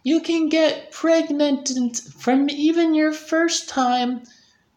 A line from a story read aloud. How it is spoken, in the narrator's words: she said, moaning